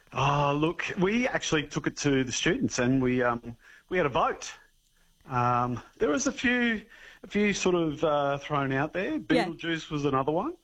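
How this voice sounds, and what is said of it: Out of breath, panting speech. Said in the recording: “I'm a little bit out of breath. ... I just run up the hill from long jump.”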